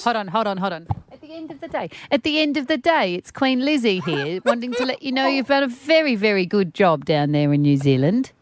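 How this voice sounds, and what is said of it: Poor impression of Queen Elizabeth. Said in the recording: “Queen Lizzie, your accent's gone bad”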